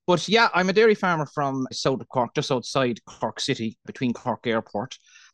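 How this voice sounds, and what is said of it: Irish Cork accent, fast speech. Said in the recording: “I always love the Irish accent ... with the Irish accent, Cork in particular, we speak very fast”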